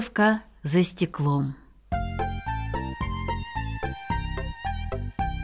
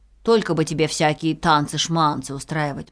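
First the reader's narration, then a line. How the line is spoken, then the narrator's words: Grumbling beetle. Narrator (Russian): проворчал жук Дормидонт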